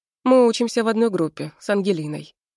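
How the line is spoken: Calm. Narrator (Russian): спокойно говорит Мир

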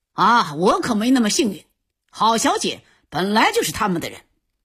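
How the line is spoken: Angry, resentful. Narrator (Chinese): Max 王瞬间被激怒了，满腹怨气道

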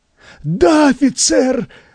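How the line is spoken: Nervous, strained. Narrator (Russian): выдавил пучеглазый, начиная нервничать

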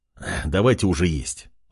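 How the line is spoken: Sighing. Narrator (Russian): вздохнул он

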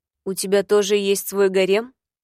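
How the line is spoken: Curt question. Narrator (Russian): отрывисто спросила

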